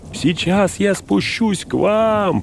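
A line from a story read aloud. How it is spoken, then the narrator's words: Shouting. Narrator (Russian): прокричал Сэм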